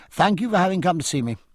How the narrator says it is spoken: said stiffly

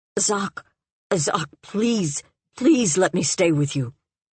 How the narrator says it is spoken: The stranger saying in a strangled voice

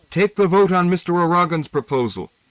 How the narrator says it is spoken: Somebody called out

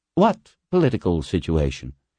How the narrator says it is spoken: Floyd asked dryly

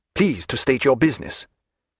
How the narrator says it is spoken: he said somewhat sharply

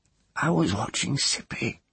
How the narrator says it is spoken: Teru whispered

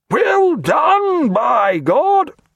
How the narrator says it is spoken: he cried above the wail of bosun's calls

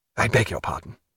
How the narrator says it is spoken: murmured Stephen

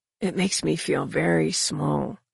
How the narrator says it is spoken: he whispered

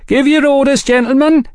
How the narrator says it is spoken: a young waiter now shouted

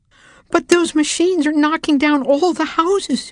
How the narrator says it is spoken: Harriet cried

